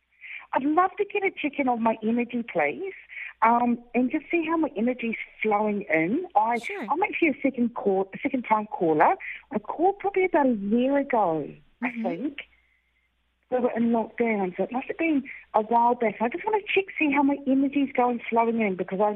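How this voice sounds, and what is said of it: Australian accent. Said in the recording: “I love your accent”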